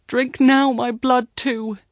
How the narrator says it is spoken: with his tears, he cries

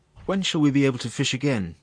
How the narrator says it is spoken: asked Monsieur Sauvage

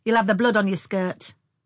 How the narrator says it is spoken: said Frances sharply

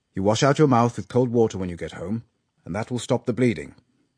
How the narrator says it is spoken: said Finkel

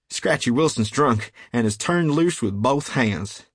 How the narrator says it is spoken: He cried

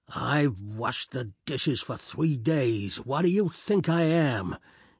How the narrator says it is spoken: He ended a red oration with a roar

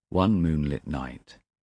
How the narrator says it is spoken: said the man

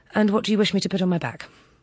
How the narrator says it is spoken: said impatiently

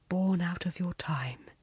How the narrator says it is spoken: he murmured

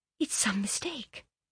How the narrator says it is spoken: she said faintly

